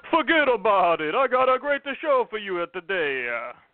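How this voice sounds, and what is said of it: Exaggerated Italian-American accent. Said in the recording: “That's my super Italian guy accent? Impression? Impression. ... my Italian accent is just an absolute disaster.”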